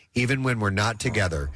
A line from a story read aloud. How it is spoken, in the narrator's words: she laughs with abandon